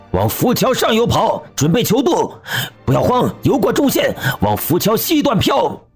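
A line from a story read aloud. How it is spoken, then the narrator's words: Shouting while running. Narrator (Chinese): 赵永胜边跑边喊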